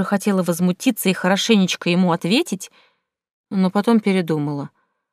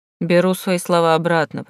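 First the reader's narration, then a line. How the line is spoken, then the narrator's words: Grumbled. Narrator (Russian): проворчал он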